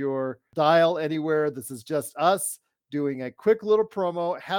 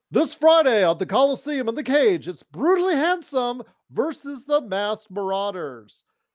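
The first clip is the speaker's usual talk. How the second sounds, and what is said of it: Wrestling announcer voice. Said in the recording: “my announcer voice”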